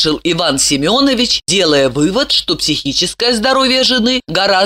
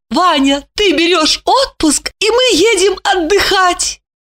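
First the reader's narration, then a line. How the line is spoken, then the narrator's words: Beaming exclamation. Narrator (Russian): Липочка просияла улыбкой и воскликнула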